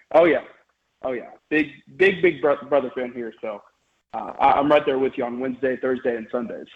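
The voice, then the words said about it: Unwell, odd-sounding voice. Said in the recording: “I've been a little bit under the weather the past few days, but so sorry if my voice sounds weird”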